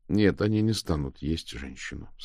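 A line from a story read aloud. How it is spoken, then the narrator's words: Plain. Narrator (Russian): сказал Мао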